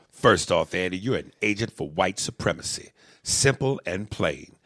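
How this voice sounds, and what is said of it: Militant, aggressive reading voice. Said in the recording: “in my militant voice”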